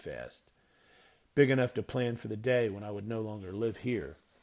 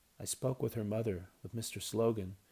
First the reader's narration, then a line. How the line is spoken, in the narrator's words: Mother answered softly